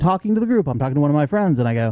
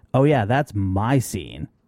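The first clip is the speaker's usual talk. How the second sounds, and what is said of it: Sarcastic voice. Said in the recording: “I say in my sarcastic voice.”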